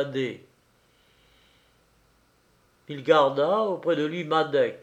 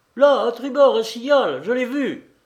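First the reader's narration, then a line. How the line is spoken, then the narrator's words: Sailor exclaiming. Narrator (French): s'écria un des matelots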